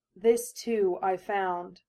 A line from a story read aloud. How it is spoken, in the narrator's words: now her voice was husky with something besides nerves